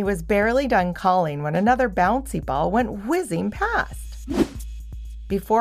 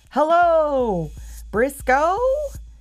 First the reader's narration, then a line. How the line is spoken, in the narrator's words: called out